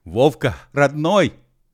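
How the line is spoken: Shouting. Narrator (Russian): кричал Би

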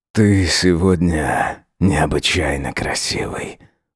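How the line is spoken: Whispered. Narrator (Russian): шепнул

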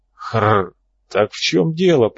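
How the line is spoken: Raspy voice. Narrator (Russian): произнес Хрипатый Боб

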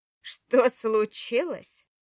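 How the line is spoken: Furious, through gritted teeth. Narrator (Russian): процедил Влад с яростью

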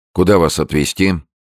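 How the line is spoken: Cold question. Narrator (Russian): холодным тоном спросил Прохоров

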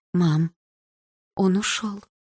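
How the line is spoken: Lifeless voice. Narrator (Russian): безжизненным голосом сказала мама

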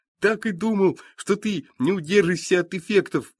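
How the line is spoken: Joyful mage. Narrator (Russian): радостно говорит маг

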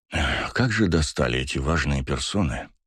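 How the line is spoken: Grumbled. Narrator (Russian): проворчал Басов

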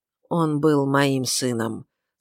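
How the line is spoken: Plain. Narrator (Russian): сказала она

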